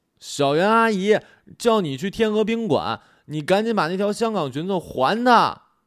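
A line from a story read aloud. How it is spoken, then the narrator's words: Excited shout. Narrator (Chinese): 我简直高兴坏了 朝里喊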